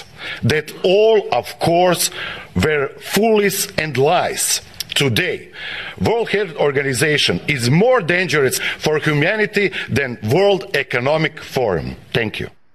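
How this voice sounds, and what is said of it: Man with a foreign accent. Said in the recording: “that's an interesting uh, accent that the dude has there too ... Russian ... I think he's Russian.”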